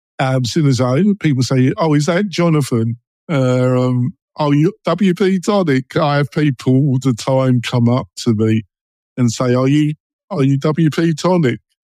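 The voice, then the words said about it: London East End Essex accent. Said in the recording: “I'm English and I've got a London, East End, Essex boy accent.”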